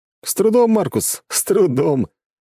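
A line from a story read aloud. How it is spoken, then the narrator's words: Laughing. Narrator (Russian): засмеялся Макс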